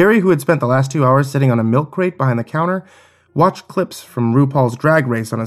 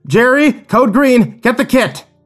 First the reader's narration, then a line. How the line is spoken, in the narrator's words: screamed, shouted